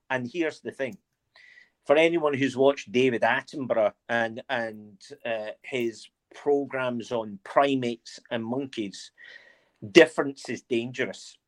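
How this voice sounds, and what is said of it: Mixed Scottish and English accent. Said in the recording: “you sound very English ... a genuine Scottish accent is, and mine's isn't one anymore. Mine's is a whole mix of my time in Scotland, my time at St Andrews, which was very English, and then my time down in England”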